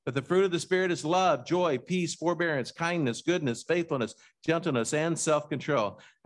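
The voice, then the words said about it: Reads a list very fast. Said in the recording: “I read those way too fast.”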